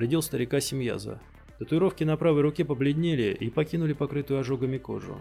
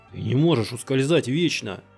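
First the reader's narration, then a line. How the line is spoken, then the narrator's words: Growling. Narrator (Russian): зарычал Симьяза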